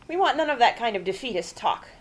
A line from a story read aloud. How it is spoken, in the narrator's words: Grandma snapped